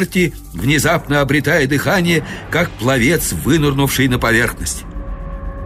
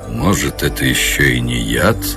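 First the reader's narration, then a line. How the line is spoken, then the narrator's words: Gloomy remark. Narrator (Russian): мрачно заметил Гарвилл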